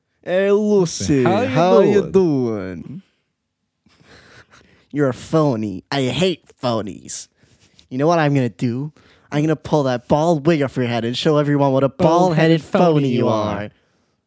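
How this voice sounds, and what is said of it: Impression of cartoon villain Gru. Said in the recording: “You do a perfect grew impression ... That was the impression.”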